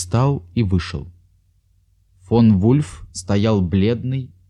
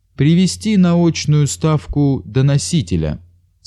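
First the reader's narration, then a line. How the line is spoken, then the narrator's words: Plain. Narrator (Russian): сказал Еропкин секретарю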